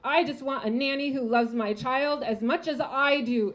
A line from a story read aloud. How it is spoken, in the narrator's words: she screams